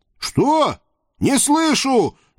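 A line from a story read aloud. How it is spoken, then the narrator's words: Deliberately loud shout. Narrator (Russian): нарочито громко прокричал я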